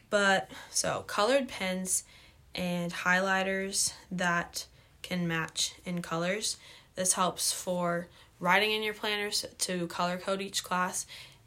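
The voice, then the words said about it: Voice sounds rough and unwell. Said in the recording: “my voice is awful”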